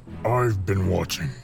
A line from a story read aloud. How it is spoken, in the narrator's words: grunted Darf